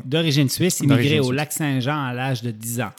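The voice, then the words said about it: Mixed Quebec and Swiss French accent. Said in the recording (French): “Fait que ça fait un accent un peu bizarre ... des fois, on l'entend, puis ça fait quelque part au Québec où ça fait aussi français, suisse”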